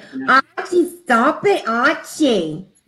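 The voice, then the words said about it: New York accent, Edith Bunker impression. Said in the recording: “I love her New York accent.”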